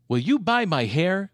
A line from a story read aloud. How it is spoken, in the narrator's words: asked Della